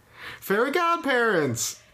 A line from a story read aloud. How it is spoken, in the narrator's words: Cosmo shouted